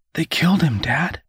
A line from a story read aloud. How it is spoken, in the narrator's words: Woodrow whispered back, his voice cracking